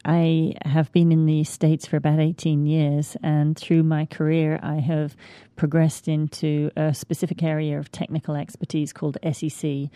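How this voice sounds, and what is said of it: Slight British accent. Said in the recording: “You can probably pick up on a little bit of a British accent. ... Still there. ... It's still there.”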